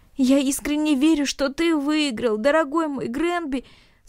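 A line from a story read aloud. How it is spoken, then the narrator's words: Uncontrollable sobbing. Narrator (Russian): сказал Наэль, безудержно всхлипывая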